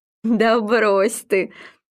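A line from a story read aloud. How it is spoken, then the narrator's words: Laughing. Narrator (Russian): не переставая смеяться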